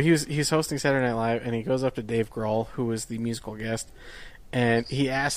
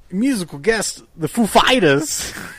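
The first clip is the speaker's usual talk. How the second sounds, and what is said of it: Imitates another person's voice. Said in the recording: “he just wanted to do the Christopher Walken”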